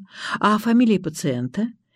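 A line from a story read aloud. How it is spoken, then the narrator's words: Sighing. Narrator (Russian): Я вздохнула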